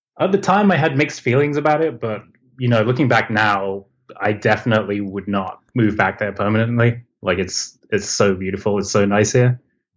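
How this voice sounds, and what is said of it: Mixed English and American accent. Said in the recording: “you don't have the typical LA accent ... I grew up in England, and I moved to LA when I was about 14. So hence the reason my accent's kind of mixed up.”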